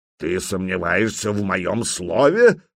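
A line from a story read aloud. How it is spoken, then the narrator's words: Growl. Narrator (Russian): прорычал Стимит Большой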